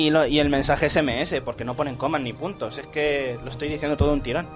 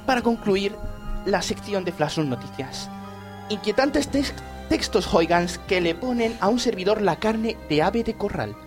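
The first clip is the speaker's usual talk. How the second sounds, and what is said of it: Imitates another person's voice. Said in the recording (Spanish): “vuelve mi acento de Iker Jiménez”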